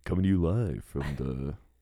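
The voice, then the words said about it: Radio announcer voice. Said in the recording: “That radio style. ... Make it sound like a radio. ... you have a great radio voice.”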